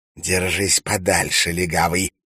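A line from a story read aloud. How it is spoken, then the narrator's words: Hiss. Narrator (Russian): прошипел Валентин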